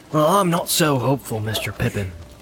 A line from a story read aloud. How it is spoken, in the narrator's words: said Sam